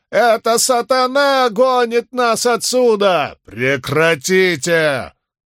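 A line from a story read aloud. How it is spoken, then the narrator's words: Thunderous roar. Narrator (Russian): взревел Бидвелл голосом, который мог бы заглушить недавние громовые раскаты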